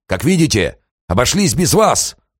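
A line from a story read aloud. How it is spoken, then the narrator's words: Triumphant shout. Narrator (Russian): торжествующе крикнул Бжазовский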